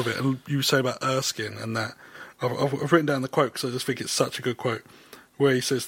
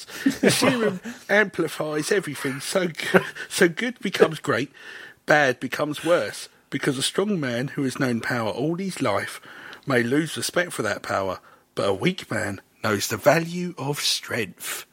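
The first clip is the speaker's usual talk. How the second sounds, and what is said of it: Impression of Erskine's accented voice. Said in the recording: “I'll do it in Stanley Urchin's voice ... natural accent, old Stanley Urchin”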